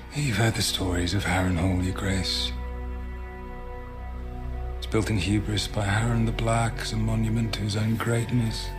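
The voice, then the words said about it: British accent. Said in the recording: “In a British accent, by the way.”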